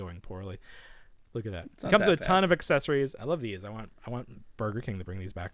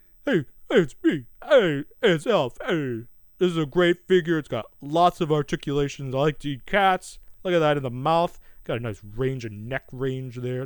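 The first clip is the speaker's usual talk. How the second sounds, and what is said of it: New York-style puppet character voice. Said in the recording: “what is his accent? ... he's got like sort of like that New York, like, ... That's pretty good.”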